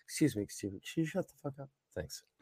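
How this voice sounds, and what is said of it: Sweet, polite customer service voice. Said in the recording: “It's my best customer service voice right there.”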